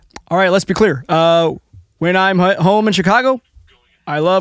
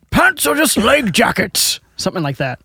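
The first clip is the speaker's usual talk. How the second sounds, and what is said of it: Gandalf-style character voice. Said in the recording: “Can you say that in a Gandalf accent?”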